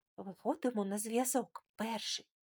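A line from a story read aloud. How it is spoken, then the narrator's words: Silently mouthed question. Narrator (Ukrainian): тихо самими губами запитала Мілана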